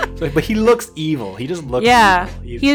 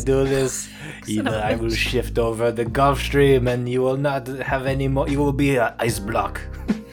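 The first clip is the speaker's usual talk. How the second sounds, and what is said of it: Put-on accent drifting into French. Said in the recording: “I don't know what a Portuguese Brazilian accent sounds like ... He's French now. ... I don't know what Portuguese sounds like because it's like Spanish but off.”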